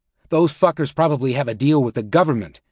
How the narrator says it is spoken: he exclaimed to the group

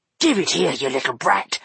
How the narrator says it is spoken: he hissed at her

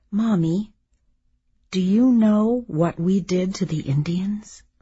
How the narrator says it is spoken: I said this slowly and with awe

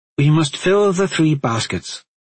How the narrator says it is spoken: she protested

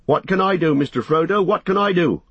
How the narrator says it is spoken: shouted Sam

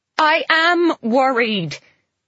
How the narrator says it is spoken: I shout

